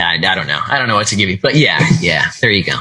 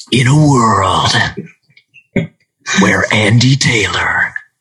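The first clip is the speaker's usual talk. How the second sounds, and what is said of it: Movie trailer announcer voice. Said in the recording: “in a world voice before, like you see in a trailer, like you hear in a trailer”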